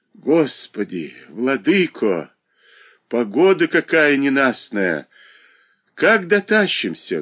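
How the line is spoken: Sighing. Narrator (Russian): вздохнула Марья Дмитриевна

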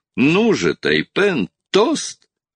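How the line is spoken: Exclaiming amid laughter. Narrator (Russian): воскликнул среди общего хохота

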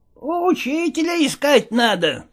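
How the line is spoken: Squeaky voice. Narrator (Russian): пищал Никита

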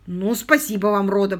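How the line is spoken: Grumbled. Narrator (Russian): пробурчал

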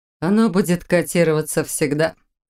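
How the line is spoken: Smirking snort. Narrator (Russian): хмыкнула Бон

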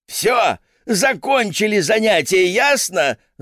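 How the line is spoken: Yelling. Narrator (Russian): заорала

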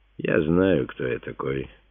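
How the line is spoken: Calm reply. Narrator (Russian): спокойно отвечал Симеон

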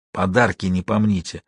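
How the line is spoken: Whisper. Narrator (Russian): Деламбро шепнул

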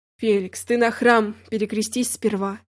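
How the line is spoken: Calm tone. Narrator (Russian): спокойно сказал его господин

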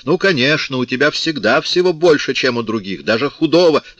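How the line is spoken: Mother's heated shout. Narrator (Russian): Мать запальчиво крикнула

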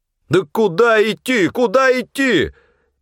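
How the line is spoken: Yelling over howling wind. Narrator (Russian): Перекрывая вой ветра, заорал снабженец

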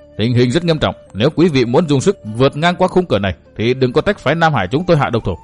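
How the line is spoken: Stern voice. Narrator (Vietnamese): Vương Quán Trung nghiêm giọng

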